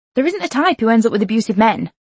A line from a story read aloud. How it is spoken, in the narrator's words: I snapped, the familiar white flame of fury flickering inside me